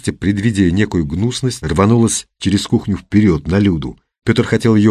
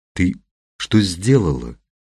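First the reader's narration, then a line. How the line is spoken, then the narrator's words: Quiet question. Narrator (Russian): тихо спросил Константин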